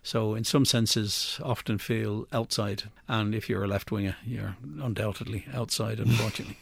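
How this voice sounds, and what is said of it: Non-Irish accent. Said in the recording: “as the accent probably betrays, I'm an immigrant to Ireland, albeit of Irish extraction”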